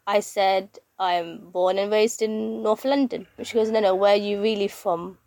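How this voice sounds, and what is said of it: British North London accent. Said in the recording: “I have a British accent. I was born and raised in North London.”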